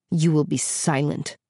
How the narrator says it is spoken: said the man icily

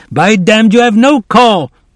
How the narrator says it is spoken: the man shouting

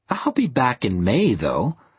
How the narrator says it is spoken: said the girl with a laugh

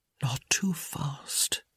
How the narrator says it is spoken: he whispered

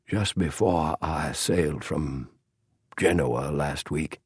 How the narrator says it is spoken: he said softly

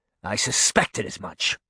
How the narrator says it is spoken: Canis snapped

